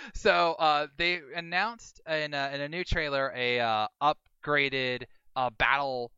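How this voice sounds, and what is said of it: Usual voice. Nothing is said of it.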